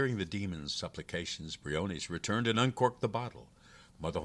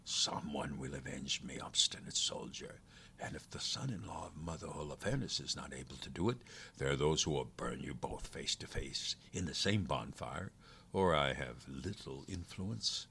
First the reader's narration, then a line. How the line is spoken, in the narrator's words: muttered to himself